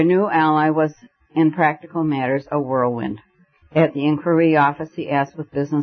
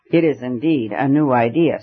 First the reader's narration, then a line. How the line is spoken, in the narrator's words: said the professor